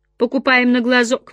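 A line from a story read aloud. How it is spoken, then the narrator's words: Grumbling. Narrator (Russian): ворчала Кэтлин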